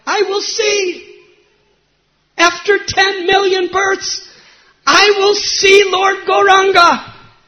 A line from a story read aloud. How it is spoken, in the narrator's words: he cried out